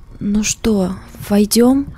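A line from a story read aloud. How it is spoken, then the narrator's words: Trembling voice. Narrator (Russian): дрожащим голосом сказала Катя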